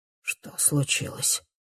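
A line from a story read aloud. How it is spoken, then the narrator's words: Dull, hoarse voice. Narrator (Russian): спрашивает он глухим, хриплым голосом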